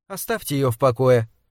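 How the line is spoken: Dry. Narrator (Russian): сухо добавила Лорел

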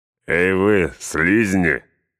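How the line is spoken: Orcs laughing. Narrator (Russian): хохотали орки Изенгарда

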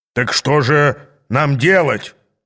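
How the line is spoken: Growled. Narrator (Russian): зарычал Гвида

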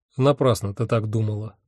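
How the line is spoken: Dry. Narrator (Russian): сухо сказал я

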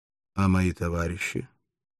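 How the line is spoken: Calm, almost quiet question. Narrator (Russian): После долгого молчания он спросил спокойным, почти тихим голосом

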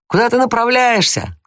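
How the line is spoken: Shout. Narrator (Russian): крикнул Том

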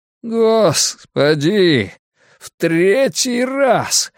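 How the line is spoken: Groaning, spluttering snow. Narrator (Russian): застонал Драккайнен, безуспешно пытаясь встать на ноги и плюясь снегом

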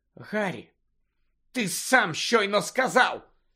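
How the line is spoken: Hissed. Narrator (Ukrainian): зашипіла Герміона

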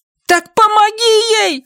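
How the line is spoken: Shouting. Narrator (Russian): Линда кричала, не говорила

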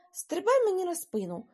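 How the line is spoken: Exclaimed. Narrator (Ukrainian): вигукнув

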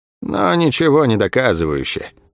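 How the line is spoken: Bored objection. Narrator (Russian): скучным голосом возразила ей Лавиани

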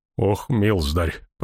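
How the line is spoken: Horrified groan. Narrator (Russian): простонал Ян Кронин, и в глазах его мелькнул неподдельный ужас

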